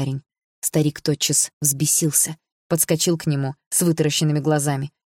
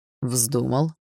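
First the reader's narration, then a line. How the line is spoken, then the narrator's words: Calm. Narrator (Russian): спокойно ответил Барс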